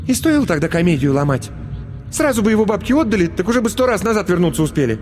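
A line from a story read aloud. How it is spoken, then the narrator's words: Irritated curt retort. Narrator (Russian): стараясь оставить последнее слово за собой, раздраженно бросила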